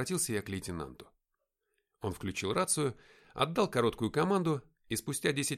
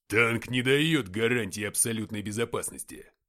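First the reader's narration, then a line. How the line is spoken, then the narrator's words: Cold. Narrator (Russian): сказал лейтенант холодным голосом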